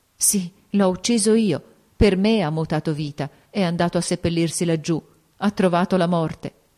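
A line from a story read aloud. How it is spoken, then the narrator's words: Choked, dry-eyed admission. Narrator (Italian): con gli occhi aridi, con voce strozzata, ella riconobbe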